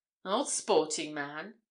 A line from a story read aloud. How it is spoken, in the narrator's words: exclaimed Crowfoot